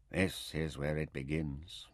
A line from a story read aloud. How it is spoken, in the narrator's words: Taita said softly